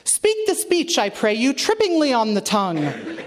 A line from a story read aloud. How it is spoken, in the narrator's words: our father cried out